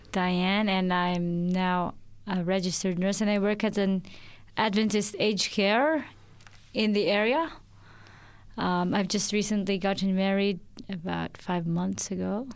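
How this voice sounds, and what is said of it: Slight Filipino accent. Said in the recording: “There's just a little bit of a hint of an accent, possibly ... I'm originally from the Philippines”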